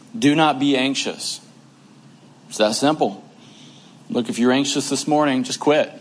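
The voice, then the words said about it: Sarcastic delivery. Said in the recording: “I'm saying that sarcastically”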